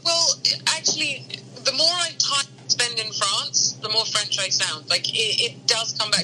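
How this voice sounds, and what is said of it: British accent. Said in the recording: “you sound very British ... a British accent”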